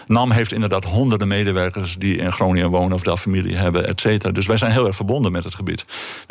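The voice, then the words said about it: Northern Dutch regional accent. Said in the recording (Dutch): “Wij zijn een, een noordelijk bedrijf. En je kunt het aan mijn accent horen.”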